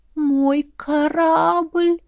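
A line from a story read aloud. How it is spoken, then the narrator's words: Dreamy drawl. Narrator (Russian): Протянула я мечтательно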